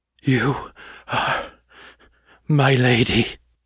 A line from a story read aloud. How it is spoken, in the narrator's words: panted